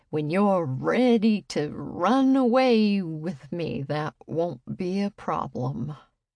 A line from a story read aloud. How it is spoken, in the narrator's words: slurred